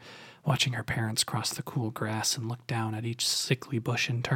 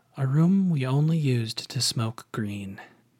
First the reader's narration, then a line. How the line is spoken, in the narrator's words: Kenny's dad sighed and said